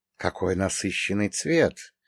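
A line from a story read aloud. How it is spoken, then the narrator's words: Mutter in Russian. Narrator (Russian): пробормотал уже на русском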